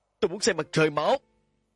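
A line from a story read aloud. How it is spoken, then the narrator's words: Shouted. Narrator (Vietnamese): Gã hét lên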